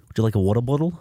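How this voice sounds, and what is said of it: Put-on New Zealand accent. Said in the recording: “I like the New Zealand accent more. ... I don't know how to do a New Zealand accent. ... I'm doing it right now.”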